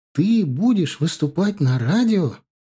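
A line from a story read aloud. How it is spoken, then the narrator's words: Admiring, joyful question. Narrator (Russian): С восхищением в голосе переспросила Галия, радостно улыбаясь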